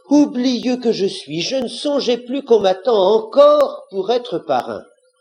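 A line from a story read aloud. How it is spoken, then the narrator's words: Fox exclaiming. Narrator (French): le renard s'écria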